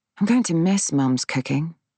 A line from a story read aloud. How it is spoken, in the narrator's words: I say wistfully